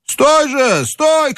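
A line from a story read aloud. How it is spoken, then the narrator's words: Shouting voices. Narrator (Russian): кричали голоса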